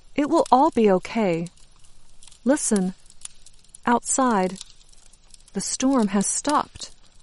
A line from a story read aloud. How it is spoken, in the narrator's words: Hope says in a calm, clear voice